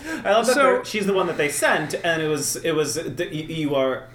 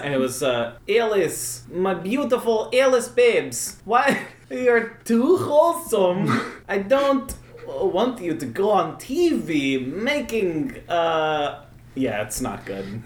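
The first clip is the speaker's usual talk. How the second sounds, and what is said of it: Put-on Swedish father accent. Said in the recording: “I'm going to do my best Swedish father voice here ... it's the accent of the week”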